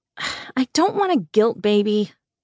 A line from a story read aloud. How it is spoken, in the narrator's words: I scoffed